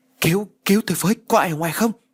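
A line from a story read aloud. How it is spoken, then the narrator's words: Panicked, terrified screaming. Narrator (Vietnamese): Phong càng hoảng loạn, mồm gào thét trong sợ hãi tột cùng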